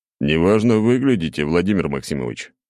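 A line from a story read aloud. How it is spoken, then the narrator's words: Chuckling. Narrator (Russian): хохотнул я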